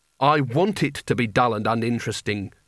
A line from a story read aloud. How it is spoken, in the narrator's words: said Rincewind bitterly